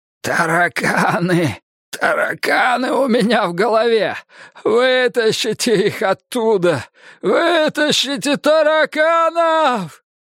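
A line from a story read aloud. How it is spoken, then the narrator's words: Hoarse rasp. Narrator (Russian): прохрипел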